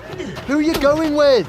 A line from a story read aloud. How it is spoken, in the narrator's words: He yelled after Hermione